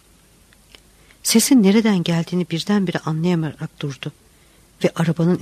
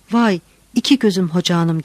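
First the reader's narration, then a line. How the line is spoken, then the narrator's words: Shouted. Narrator (Turkish): diye bağırdı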